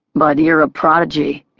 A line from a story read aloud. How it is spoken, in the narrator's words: he chuckled